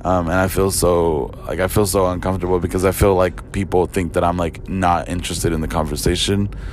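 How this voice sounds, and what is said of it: Hoarse, deep, raspy lost voice. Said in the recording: “I was screaming a lot ... my voice sounds like this. Like, my voice is still out ... I feel like I sound preppy ... like Will Arnett, like Lego Batman”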